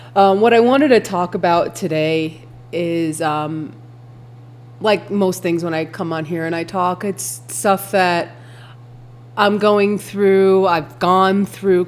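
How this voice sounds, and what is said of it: Congested, stuffy-sounding voice. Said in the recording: “excuse my voice, my allergies have caused this weird congestion where I cannot get rid of it right now. So I apologize for my voice and its tone”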